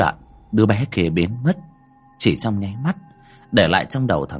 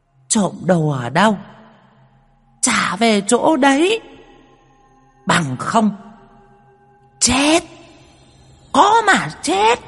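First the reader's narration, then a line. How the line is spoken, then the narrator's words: Child hissing shrilly. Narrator (Vietnamese): Đứa bé rít lên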